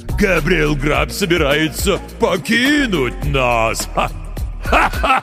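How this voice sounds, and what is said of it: Goblin mockingly mimicking the gravedigger. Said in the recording (Russian): “передразнил его гоблин”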